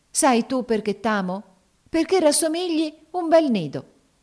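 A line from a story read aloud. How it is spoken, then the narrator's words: Sudden ecstatic exclamation. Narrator (Italian): esclamò a un tratto con estasi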